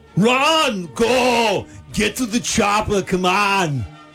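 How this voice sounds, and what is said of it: Arnold Schwarzenegger impression. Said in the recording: “is going to do an impression ... It's Arnold Schwarzenegger.”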